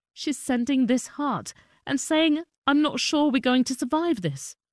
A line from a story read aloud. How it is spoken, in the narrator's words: Ido sobbed as he reread a message from his cousin Hadass Calderon in Kibbutz Neir Oz